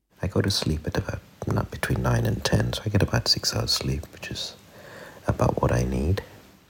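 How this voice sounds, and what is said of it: Whispering. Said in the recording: “he's whispering”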